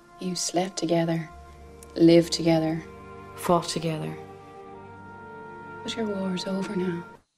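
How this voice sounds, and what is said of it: Actor attempting an Irish accent. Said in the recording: “a selection of actors having a go at the Irish accent”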